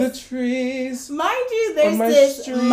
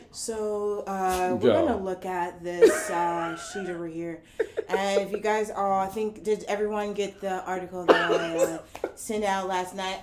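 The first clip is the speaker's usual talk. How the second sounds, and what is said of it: Flat monotone lecturer voice. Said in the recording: “Monotone white man in the back”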